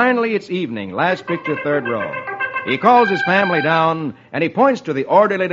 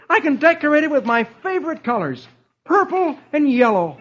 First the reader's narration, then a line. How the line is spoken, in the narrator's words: he says cheerfully